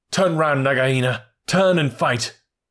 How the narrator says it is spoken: Rikki Tikki cried

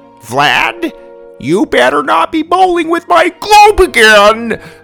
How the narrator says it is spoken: Luca yelled

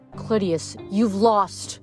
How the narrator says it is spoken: snarled

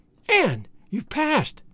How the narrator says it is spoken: cried

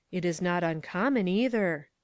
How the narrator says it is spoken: murmured the Swiss and the other three

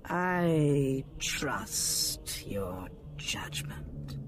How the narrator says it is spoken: Ventress said slowly

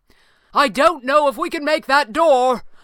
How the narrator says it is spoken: Falcone cried

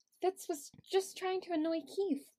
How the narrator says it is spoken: Sophie mumbled, attempting not to let her disappointment leak into her voice

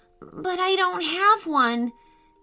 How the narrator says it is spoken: said Hudson nervously

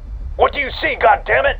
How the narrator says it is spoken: Perez shouted

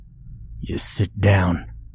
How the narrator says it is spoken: hissed

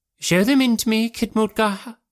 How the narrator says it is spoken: he cried

